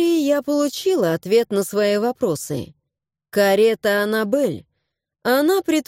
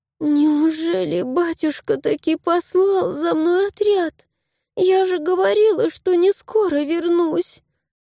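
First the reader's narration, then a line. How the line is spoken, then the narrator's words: Duchess groaning. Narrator (Russian): Простонала герцогиня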